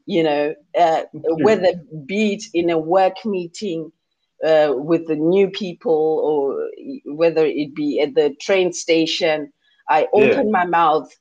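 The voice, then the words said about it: Zimbabwean English accent. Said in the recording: “my Zimbabwean accent, which is so clear”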